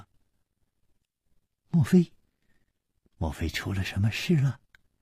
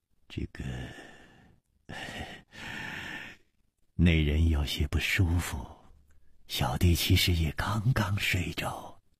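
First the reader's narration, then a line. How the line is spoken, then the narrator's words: Sighing. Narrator (Chinese): 李玉涵……也叹了一口气说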